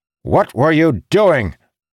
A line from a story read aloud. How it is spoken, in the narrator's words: Arantil's voice bellowed